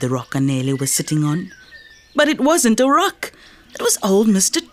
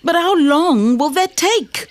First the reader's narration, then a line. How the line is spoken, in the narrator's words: Anele asked impatiently